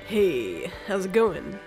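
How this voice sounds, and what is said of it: Mock male radio host voice. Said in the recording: “My radio voice is like ... Trying to be a man radio voice.”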